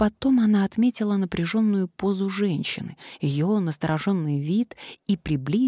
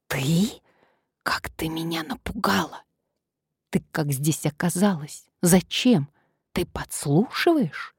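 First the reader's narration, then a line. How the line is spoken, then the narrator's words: Barely moving whisper. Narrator (Russian): прошептала Надежда, едва шевеля губами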